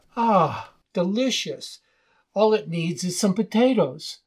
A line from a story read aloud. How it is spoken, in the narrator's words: The stranger with relish exclaimed